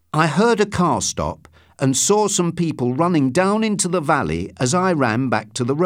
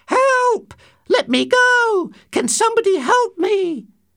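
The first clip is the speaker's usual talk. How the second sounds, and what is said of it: Shouting in a high woman's voice. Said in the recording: “started shouting, imitating a woman's high voice.”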